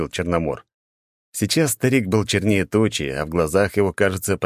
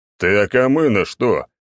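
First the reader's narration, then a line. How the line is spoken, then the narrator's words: Growled. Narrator (Russian): рыкнул Черномор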